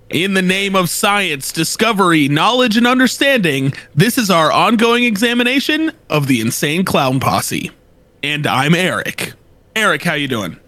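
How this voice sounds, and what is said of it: Impression of his co-host. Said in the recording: “I'm about to do an impression of him... this is my impression of my co-host with the co-most... Good impression?”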